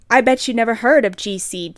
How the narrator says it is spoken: James said

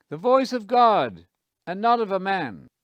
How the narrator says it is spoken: the people shouted

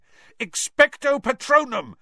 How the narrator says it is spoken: Harry yelled

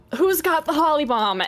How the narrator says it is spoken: he will, out of breath, yell

